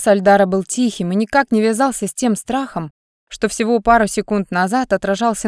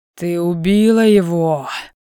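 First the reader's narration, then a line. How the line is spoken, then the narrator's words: Dull, absent male voice. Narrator (Russian): Глухо повторил вопрос мужчина, словно не слыша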